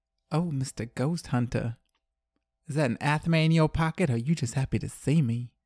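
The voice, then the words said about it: Sultry put-on Southern accent. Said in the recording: “She's Finnish, not Southern. ... I just thought it would sound more sultry in a Southern accent.”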